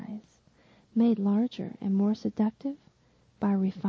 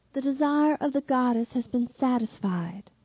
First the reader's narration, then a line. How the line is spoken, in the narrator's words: says the Roman